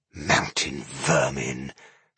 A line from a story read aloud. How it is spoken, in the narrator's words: she hissed